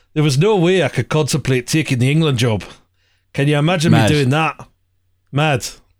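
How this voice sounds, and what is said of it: Alex Ferguson impression, accent sounding Welsh. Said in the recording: “I'll do the accent for this one ... Ferguson? ... Yes. ... Yeah. That sounded Welsh.”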